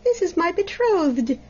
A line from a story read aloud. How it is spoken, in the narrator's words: exclaimed the princess joyfully